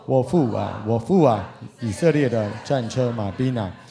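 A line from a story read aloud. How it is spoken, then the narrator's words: Crying out. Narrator (Chinese): 以利沙呼叫说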